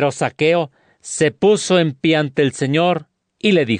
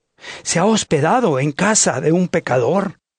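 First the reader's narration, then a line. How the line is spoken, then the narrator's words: Crowd murmuring. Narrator (Spanish): todos murmuraban y decían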